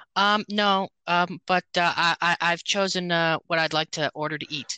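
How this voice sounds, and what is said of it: Imitates another person's voice. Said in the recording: “I do a great Kardashian impression. I do an impression of a Kardashian, any Kardashian”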